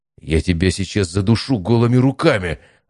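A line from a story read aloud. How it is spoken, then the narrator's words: Growled. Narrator (Russian): рыкнул Матвей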